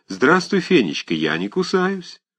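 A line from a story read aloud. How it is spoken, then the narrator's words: Affectionate call. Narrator (Russian): ласково крикнул ей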